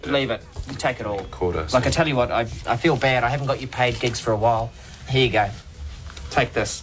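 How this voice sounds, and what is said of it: New Zealand accent. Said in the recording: “which accent is this? ... It is New Zealand.”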